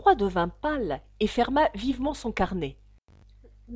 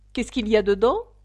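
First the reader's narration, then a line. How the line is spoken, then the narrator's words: Plain. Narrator (French): dit la reine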